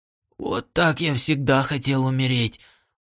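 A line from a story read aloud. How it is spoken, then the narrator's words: Whisper. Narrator (Russian): прошептал он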